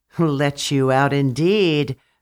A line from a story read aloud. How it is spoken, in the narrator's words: the vampire sneered, laughing cruelly